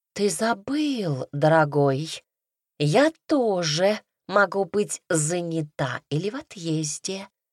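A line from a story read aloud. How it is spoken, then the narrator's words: Purring reply. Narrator (Russian): промурлыкала в ответ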